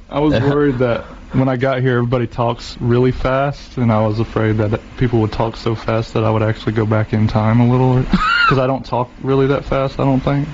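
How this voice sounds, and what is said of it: Southern American drawl. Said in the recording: “you got the Southern drawl”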